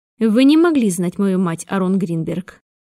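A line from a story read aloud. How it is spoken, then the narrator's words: Sudden indifferent female voice. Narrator (Russian): сказала вдруг равнодушным голосом его гостья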